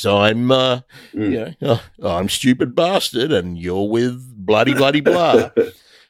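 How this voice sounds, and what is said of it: Put-on radio DJ voice. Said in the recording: “famous radio person with the great DJ voice”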